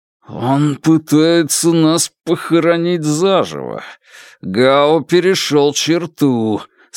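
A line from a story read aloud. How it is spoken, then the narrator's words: Through clenched teeth. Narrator (Russian): сквозь стиснутые зубы процедил Янь Ли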